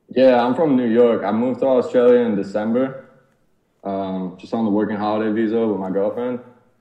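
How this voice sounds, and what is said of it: American accent. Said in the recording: “you have an American accent, right?”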